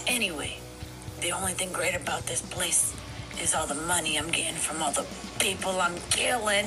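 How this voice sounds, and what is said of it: Put-on accent. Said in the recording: “I'm losing my accent.”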